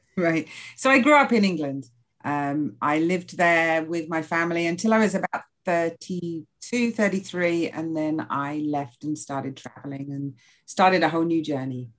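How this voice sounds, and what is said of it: Non-American, English-sounding accent. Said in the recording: “you and I do not share an accent. So I don't assume that you're from Southern California or Alabama”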